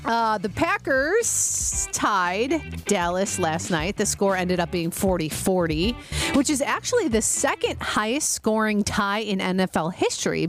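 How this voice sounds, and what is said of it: Slight Wisconsin-Chicago accent. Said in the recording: “there's like a little bit of my Wisconsin accent meets my Chicago”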